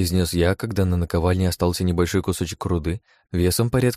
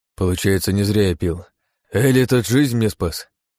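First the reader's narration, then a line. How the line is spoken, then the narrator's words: Heavy sigh. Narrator (Russian): добавил он и тяжело вздохнул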